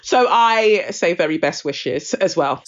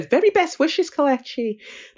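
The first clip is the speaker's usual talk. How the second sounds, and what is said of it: Put-on Irish accent. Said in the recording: “That's my Irish accent.”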